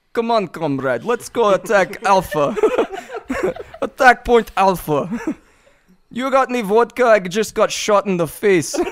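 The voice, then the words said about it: Put-on Russian accent. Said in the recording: “You want me to give Russian accent now?”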